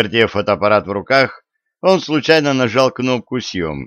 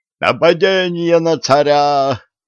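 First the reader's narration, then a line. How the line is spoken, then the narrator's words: Yelling. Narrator (Russian): завопил сотник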